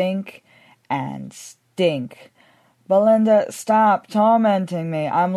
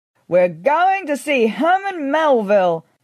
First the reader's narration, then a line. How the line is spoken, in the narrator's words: I shouted